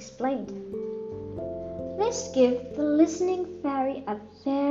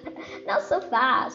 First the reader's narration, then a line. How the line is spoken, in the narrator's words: laughed the Rainbow Fairy